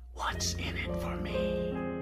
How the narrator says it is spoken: a little voice whispered in the back of my mind

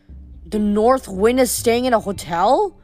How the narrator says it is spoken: Leo said

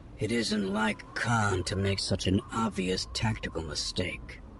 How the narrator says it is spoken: he muttered

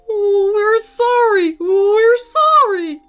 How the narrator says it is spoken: whimpered the grown-ups

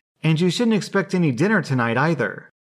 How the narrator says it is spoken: she added triumphantly

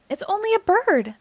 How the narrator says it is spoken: called out

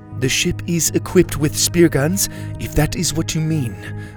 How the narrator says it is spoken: Mora replied

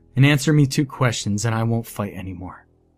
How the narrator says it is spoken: I said in my most defeated voice

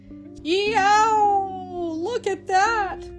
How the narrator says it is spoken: howling

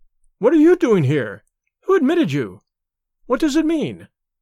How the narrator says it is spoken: she cried

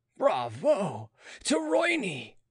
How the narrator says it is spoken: they all roared

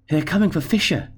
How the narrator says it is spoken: said breathlessly

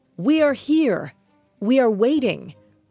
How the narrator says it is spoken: Romanus yelled into the abyss

